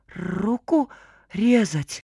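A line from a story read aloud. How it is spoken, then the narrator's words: Boy's trembling voice. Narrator (Russian): дрожащим голосом переспросил мальчишка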